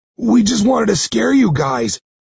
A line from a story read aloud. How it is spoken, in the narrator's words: he gasps